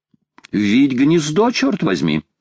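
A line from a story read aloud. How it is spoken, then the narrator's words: Cheerful. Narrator (Russian): весело сказал Паганель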